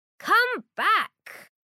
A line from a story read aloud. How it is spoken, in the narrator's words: Brown runs after him and shouts